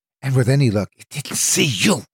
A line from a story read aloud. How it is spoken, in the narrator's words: she hissed